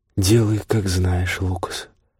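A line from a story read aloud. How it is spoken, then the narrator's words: Muffled female voice. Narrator (Russian): глухо сказала она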